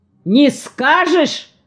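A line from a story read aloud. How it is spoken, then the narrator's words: Villain yelling. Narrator (Russian): в последний раз заорал на нее злодей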